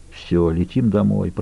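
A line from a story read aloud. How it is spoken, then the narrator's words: Mumble. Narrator (Russian): пробормотал он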